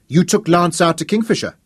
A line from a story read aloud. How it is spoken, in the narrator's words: she accused him, her voice sharp and anxious